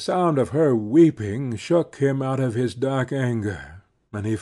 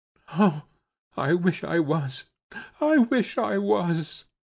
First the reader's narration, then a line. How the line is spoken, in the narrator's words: she sobbed